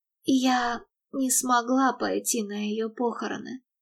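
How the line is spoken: Hoarse mumbling. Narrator (Russian): хрипло бормотала Мередит

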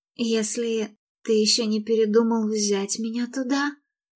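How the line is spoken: Choked tearful mumble. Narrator (Russian): пробормотала она, пытаясь проглотить сжимающий горло ком

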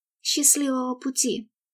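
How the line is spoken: Whisper. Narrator (Russian): шепнула она

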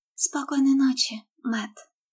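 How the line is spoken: Trembling mutter. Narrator (Russian): Дрожащим голосом пробормотала она

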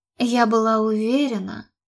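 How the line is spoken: Sighing. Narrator (Russian): вздохнула она

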